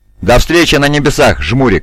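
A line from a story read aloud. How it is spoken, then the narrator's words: Cheerful shouted reply. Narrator (Russian): Весело кричат в ответ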